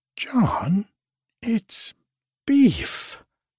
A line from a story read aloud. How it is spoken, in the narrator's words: screamed the old lady, spluttering